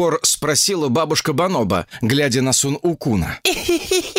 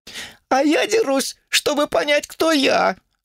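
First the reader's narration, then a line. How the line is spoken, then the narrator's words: Sobbing. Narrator (Russian): всхлипнул он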